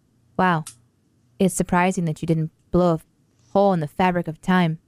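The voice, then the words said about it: Impression of Kate Mara. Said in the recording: “that's a great Cat Mirror impression, and that's a good Cat Mirror impression”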